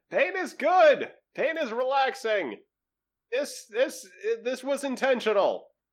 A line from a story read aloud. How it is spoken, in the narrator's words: Marcus uh, shouts back up to Car and Setsa